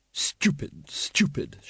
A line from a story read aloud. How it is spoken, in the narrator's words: she muttered, realizing the lamp was back downstairs